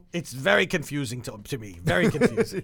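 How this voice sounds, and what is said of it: Put-on Scottish accent. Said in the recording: “Now you went Scottish.”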